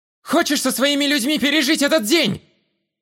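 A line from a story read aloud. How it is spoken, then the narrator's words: Shouting while running. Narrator (Russian): я кричал на бегу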